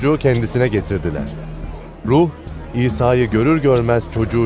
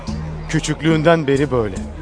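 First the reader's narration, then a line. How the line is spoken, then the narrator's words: Plain. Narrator (Turkish): dedi babası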